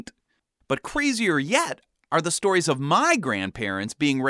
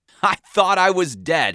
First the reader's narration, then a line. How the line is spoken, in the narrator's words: he finished laughing